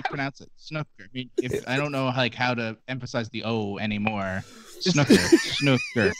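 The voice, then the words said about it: Regional accent. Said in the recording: “You're crying laughing at our regional accent.”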